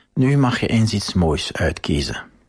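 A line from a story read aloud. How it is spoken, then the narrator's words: Whispering. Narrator (Dutch): fluisterde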